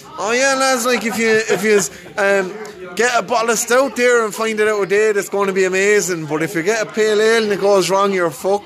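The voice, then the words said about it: Attempted Wexford Irish accent. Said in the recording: “I'm going to try and do a Wexford accent here”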